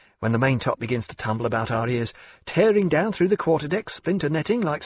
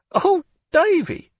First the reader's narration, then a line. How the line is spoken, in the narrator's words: cried his aunt